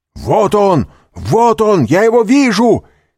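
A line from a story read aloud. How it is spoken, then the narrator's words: Shout behind door. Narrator (Russian): крикнул голос за дверью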